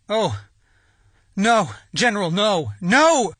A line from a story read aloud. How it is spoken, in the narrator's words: cried out, wept like a child